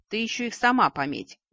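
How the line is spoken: Brother's snide snort. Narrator (Russian): ехидно хмыкнул братец

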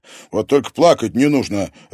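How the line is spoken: Sharp. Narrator (Russian): резко сказал ей Подольский

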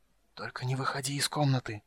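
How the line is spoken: Whispered. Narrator (Russian): прошептал

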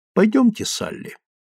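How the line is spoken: Calm. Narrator (Russian): сказал он спокойно

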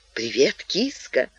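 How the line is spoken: Whisper. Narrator (Russian): шепнул он

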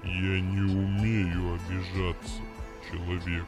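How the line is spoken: Flat, even voice. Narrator (Russian): ровным голосом произнес исполнитель желаний

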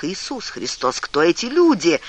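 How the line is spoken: Exclamation. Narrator (Russian): воскликнул Том

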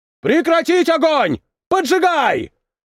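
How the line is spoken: Shouted. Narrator (Russian): закричал кто-то

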